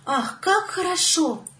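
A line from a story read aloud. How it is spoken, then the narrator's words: Girl exclaiming. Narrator (Russian): воскликнула девочка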